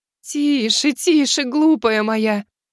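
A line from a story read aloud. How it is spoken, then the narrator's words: Tearful, loving, tender. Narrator (Russian): Кадзуми улыбнулась сквозь слезы с любовью и нежностью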